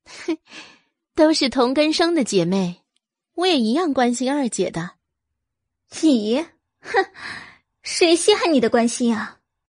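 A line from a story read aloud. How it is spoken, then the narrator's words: Slight smile. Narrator (Chinese): 阮明星 微微一笑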